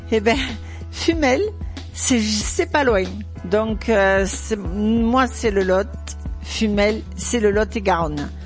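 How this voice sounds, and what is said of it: Speaks with a regional accent. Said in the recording (French): “vous entendez mon accent?”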